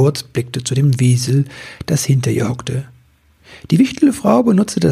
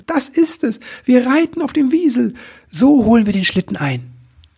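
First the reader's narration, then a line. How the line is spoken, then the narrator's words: Enthusiastic call. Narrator (German): rief er voller Begeisterung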